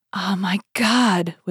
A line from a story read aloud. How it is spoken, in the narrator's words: whispered Madame Bonacieux